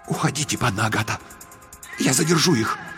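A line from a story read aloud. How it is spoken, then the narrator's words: Brave whisper. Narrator (Russian): Грозельчикус мужественным шепотом сказал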